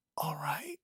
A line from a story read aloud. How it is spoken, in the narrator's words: whispered